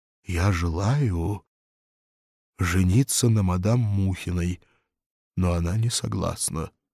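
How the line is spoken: Husky. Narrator (Russian): Ежиков сипло сказал

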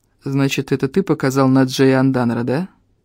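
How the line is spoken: Bored tone. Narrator (Russian): скучающим тоном произнес он

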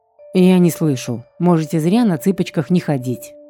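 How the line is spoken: Snorting. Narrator (Russian): фыркнул оборотень

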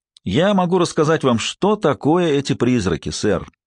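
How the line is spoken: Plain. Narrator (Russian): сказала она

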